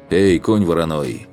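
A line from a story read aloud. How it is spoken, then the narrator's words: Shout. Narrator (Russian): крикнул я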